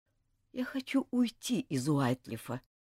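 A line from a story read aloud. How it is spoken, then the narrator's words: Quiet. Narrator (Russian): сказал он тихо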